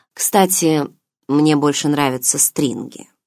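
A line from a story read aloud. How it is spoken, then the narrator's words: Lazy reluctant remark. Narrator (Russian): лениво уведомил Барс, нехотя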